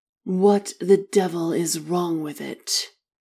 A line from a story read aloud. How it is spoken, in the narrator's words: Arthur grumbled, jiggling the clutch impatiently